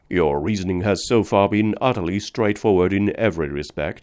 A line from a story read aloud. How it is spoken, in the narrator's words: I said